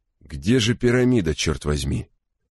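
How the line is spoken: Irritated question. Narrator (Russian): раздраженно осведомился он

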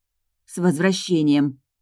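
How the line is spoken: Grumble. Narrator (Russian): проворчала я

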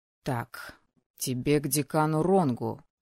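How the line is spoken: Muttered under breath. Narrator (Russian): пробормотал себе под нос Леон

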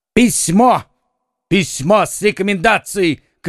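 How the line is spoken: Shouting. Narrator (Russian): кричал Д'Артаньян

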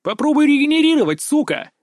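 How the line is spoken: Roaring. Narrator (Russian): взревел

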